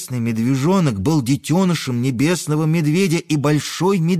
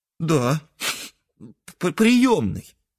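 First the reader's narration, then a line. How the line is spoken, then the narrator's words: Sobbing calf. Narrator (Russian): всхлипнул белесый теленок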